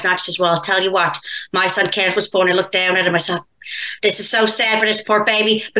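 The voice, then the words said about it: Imitated Newfoundland accent. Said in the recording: “I could do an impression of a Newfoundlander ... she's from Newfoundland”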